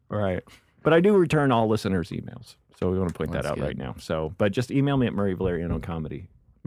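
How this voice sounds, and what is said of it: Good podcast radio voice. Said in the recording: “you have a great podcast voice. ... Good voice for radio.”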